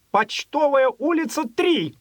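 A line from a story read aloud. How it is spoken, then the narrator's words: Sudden angry shout. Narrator (Russian): Вдруг в сердцах крикнул аптекарь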